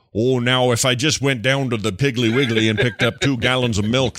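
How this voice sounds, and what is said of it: Thick Minnesota accent, Jesse Ventura. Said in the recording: “Jesse Ventura matched with a very thick Minnesota accent”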